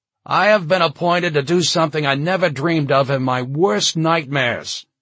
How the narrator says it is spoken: John shouted

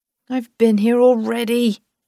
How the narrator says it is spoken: he said miserably

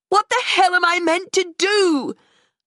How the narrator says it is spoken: I shouted

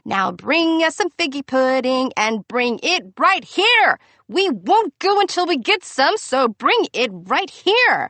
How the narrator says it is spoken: an angry mob scream singing

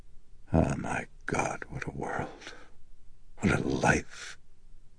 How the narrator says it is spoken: he breathed out despondently

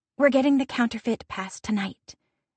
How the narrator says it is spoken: Gwenna murmurs

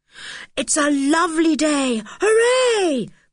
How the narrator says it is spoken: cried Julian

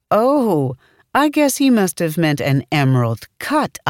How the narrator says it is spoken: I said, laughing

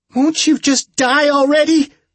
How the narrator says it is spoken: Julie screamed

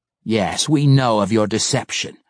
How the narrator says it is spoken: Malice sneered

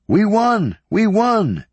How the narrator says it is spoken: Ahimaaz called out

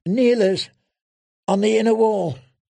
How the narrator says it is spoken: she gasped, before a second shaft appeared between her breasts

